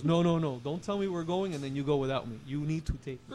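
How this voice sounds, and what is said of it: Imitates father's accented voice. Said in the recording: “I like your dad's accent, too.”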